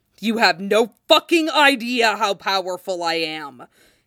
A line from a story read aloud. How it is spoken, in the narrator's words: he snarls